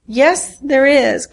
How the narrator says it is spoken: cried Kathleen

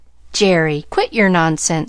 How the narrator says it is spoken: he cried vexedly

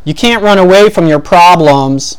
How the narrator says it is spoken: a heckler yelled from his SUV

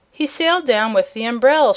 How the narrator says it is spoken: she cried

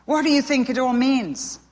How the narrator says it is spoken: gasped Sparrow

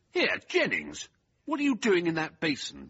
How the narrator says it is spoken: Venables thundered indignantly

